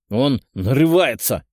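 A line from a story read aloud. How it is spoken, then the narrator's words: Barked. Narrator (Russian): рявкнул Алексей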